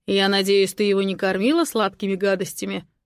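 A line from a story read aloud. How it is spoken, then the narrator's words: Menacing. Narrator (Russian): Грозно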